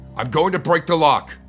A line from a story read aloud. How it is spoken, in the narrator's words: I shouted